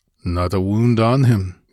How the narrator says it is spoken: grunted the Cimmerian

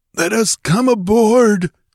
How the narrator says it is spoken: croaked a hairy rogue

